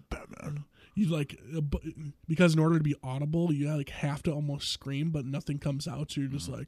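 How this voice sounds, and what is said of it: Muffled, congested voice. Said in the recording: “that's why I sound a little muffled”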